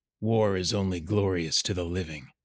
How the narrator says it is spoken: his father quietly stated

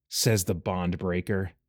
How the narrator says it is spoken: Anthem muttered

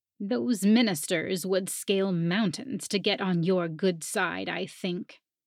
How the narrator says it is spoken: Hilda grumbled

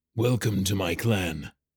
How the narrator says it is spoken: Ivor rumbled

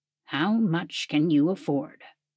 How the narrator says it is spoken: Ilion asked, his voice so low that Taliana could barely hear it

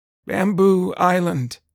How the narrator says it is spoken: the woman croaked out

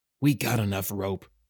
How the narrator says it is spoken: muttered the other

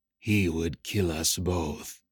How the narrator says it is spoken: Nemeth whispered in his mind

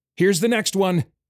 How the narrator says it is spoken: he cried

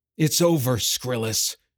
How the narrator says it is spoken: he growled, fire gleaming in his eyes

